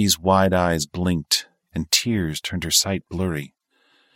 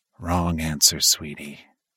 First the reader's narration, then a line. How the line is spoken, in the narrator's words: said in a low, menacing voice